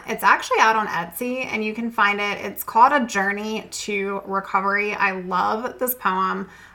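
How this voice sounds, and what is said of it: Raspy voice. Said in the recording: “my allergies are off the chain ... my raspy voice today”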